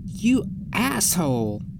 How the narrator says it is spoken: I scream at him

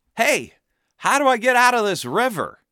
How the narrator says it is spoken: A guy yells

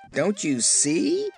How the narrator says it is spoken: asked Dixie, who had laughed even harder than the others

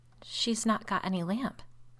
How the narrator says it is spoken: said Rebecca in a shaking voice

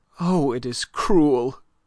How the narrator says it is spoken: cried Aline in a stifled voice

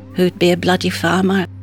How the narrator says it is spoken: Pete just muttered

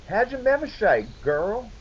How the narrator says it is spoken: she said happily

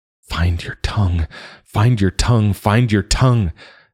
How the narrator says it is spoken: Joa cried within himself

